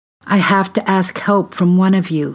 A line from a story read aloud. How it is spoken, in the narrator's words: he said